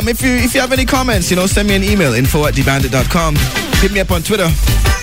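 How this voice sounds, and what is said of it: Speaks with a genuine regional accent. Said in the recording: “this accent is real. Yeah, no faking the funk here. It's real.”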